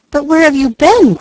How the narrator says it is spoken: cried the boy

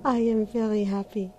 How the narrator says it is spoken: she sighed

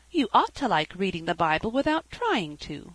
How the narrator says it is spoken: exclaimed Felicity

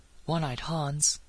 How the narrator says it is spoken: he breathed

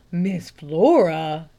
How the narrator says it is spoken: gasped the lay reader

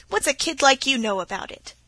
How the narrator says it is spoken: he laughed quite briskly as he asked

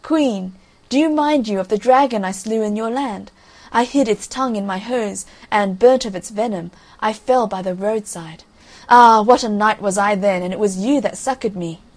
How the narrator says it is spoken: the fool still laughed and cried

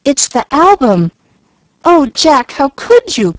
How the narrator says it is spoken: cried Jill, dismayed at the sight of the precious book, so maltreated by the owner

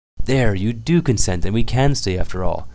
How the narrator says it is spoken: exclaimed Sonetchka, jumping for joy

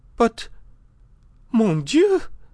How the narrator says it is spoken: cried the Countess

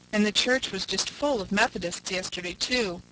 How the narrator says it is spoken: groaned Miss Cornelia

